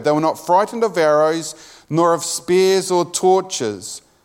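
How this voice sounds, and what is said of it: New Zealand English accent. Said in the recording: “my New Zealand accent”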